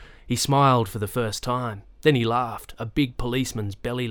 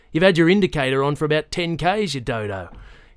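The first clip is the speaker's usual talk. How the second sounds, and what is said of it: Serious rural farmer's accent. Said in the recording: “the officer said seriously in his farmer's accent”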